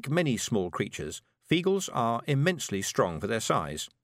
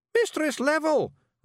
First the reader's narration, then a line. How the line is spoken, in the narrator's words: Rob Anybody yelled